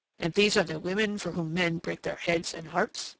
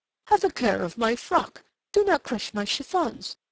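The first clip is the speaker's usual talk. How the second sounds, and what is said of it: Quivering falsetto mimicry. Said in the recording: “He mimicked her in a quivering falsetto.”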